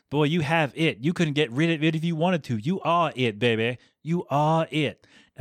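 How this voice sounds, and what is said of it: Imitates another person's voice. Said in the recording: “doing his Dusty impression”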